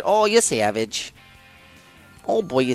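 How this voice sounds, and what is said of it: Put-on Canadian accent. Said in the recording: “That's a good Canadian impression ... Canadian pronunciation”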